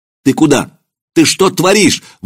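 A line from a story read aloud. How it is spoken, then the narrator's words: Shout. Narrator (Russian): выкрикнул Маркин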